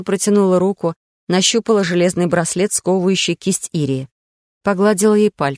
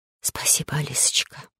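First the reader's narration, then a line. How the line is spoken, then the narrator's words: Whispered reply. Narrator (Russian): прошептала в ответ Ирия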